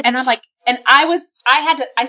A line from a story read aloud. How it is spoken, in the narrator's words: I stammered